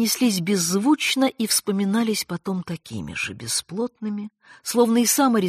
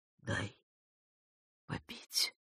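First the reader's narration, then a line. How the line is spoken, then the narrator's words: Pained whisper. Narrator (Russian): прошептал Аристарх, удивившись, как больно отзывается в груди каждое движение голосовых связок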